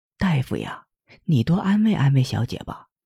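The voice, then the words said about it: Quiet, cautious hushed voice. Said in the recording (Chinese): “小声谨慎地说”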